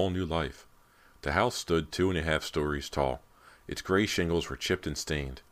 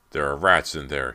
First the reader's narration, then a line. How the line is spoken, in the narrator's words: he cried angrily